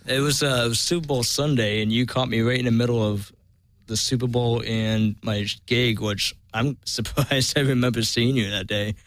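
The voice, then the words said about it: Massachusetts accent. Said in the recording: “I hear an accent. ... I'm from Massachusetts.”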